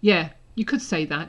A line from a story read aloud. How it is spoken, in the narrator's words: Harry said a little coldly